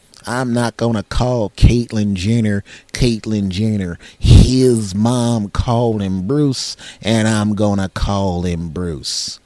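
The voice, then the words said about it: Imitates another person's voice. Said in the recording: “doing an impression of one of the guys I saw on the internet”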